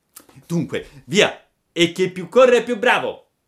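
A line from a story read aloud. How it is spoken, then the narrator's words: Shouting. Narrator (Italian): gridò Pinocchio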